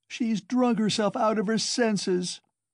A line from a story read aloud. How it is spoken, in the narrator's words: the same woman's voice wailed